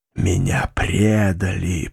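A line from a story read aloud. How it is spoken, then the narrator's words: Moan. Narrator (Russian): простонал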